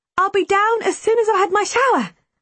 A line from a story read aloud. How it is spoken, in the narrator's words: I smiled brightly